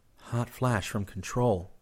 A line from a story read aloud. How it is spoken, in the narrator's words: Chris murmured